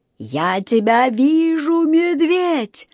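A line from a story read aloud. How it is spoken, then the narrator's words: Shrieking in strange voice. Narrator (Russian): не своим голосом вопил мистер Карри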